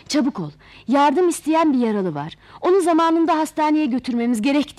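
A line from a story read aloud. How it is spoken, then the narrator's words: Shouted. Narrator (Turkish): diye bağırınca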